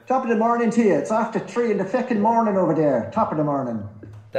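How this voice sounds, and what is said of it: Put-on Irish accent. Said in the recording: “That's a prime Irish accent there”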